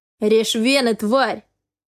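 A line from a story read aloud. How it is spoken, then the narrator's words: Barked. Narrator (Russian): рявкнул Каспер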